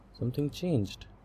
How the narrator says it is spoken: said softly

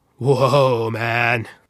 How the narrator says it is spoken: slurred a voice

